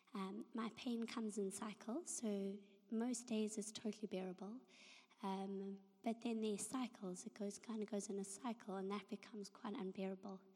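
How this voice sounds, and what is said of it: Hoarse, fading voice. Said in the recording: “my voice went”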